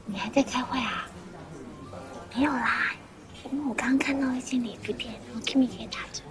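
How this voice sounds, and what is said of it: Quiet, hushed speech. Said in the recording (Chinese): “那么小声干嘛？”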